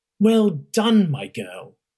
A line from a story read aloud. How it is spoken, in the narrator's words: Chancellor Roth exclaimed